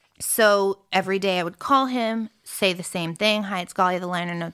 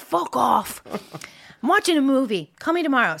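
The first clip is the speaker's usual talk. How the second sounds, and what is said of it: Poorly done put-on accent. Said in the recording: “sorry for my accent. It's terrible.”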